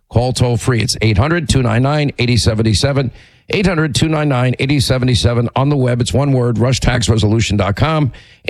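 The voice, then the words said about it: Hoarse, laryngitic voice. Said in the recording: “my laryngitis”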